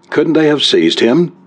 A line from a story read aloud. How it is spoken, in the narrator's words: demanded Kenton, his tone sharp with the worry he endeavored to control